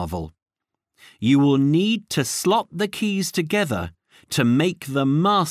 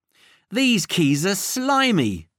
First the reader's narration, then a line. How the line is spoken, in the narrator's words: cried Tiger